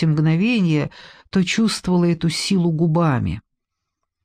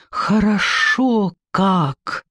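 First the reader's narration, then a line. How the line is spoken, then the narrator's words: Groaning exhale. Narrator (Russian): стоном выдохнул он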